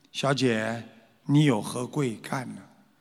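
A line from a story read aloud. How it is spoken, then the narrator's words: Plain. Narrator (Chinese): 甘露啊，看见一个女的过来了，他就问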